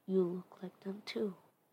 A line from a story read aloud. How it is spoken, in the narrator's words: him mumble